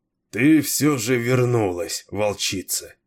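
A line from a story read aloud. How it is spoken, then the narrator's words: Weary. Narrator (Russian): устало промолвил Кейн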